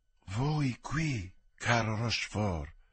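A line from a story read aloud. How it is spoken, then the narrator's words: Quiet voice. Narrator (Italian): disse sottovoce di Guascone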